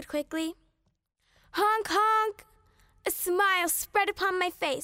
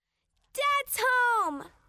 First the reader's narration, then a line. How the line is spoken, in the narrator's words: I yelled